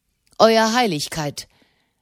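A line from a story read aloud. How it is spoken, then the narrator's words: Sharp. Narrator (German): sagte er scharf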